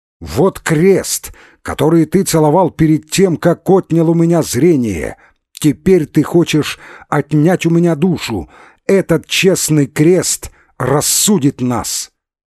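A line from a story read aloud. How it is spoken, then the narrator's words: Shouting. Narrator (Russian): слепой Василько кричал, обращая речь свою к святополку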